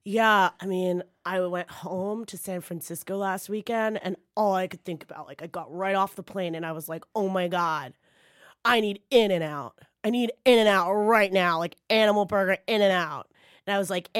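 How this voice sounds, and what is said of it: Impression of a Californian speaker. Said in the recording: “do an impression of a person from California talking about In-N-Out Burger”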